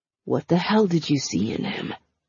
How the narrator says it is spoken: He made sure to pitch his voice low enough so that Daryl couldn't hear him

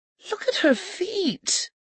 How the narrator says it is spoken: Erica whispered to Santiol

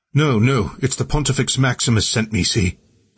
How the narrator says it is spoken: the man said, still panting heavily

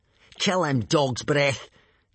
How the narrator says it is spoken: shouted Snotface Snotlout, Dog's Breath's friend and fellow bully

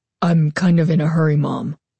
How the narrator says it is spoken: Carly Beth called, her voice deep and raspy inside the mask

